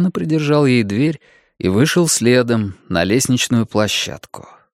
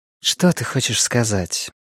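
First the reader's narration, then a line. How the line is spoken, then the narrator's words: Soft question. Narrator (Russian): мягко спросила она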